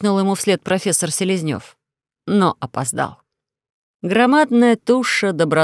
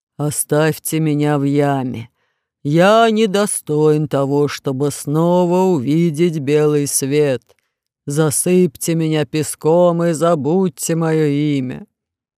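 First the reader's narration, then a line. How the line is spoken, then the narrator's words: Gloomy, upset, offended repetition. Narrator (Russian): Громозека был настолько расстроен и оскорблен тем, что стал добычей паука, что мрачно повторял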